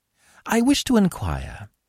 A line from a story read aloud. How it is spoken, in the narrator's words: said Arsène Lupin, in that deferential tone